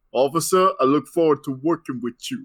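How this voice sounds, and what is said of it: Odd put-on character accent. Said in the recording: “Miles's Spider-Man voice, which I thought was hilarious ... what accent is this?”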